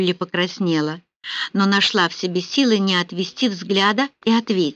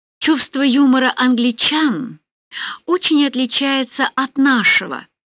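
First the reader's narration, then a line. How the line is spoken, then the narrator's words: Honeyed voice. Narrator (Russian): медовым голосом произнесла Милина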